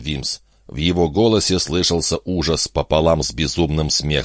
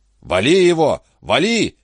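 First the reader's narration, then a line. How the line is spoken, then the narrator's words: Shouted. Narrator (Russian): крикнул Торгюсон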